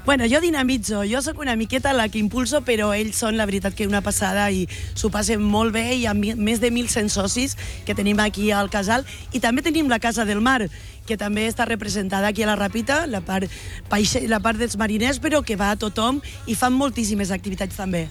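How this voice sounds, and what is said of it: Local Ràpita Catalan accent. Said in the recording (Catalan): “d'on pilles l'accent? ... És que has agafat l'accent de la Ràpita total, eh?”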